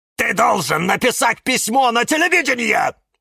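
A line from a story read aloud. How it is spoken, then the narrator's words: Shouting. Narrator (Russian): закричал кактус Кирилл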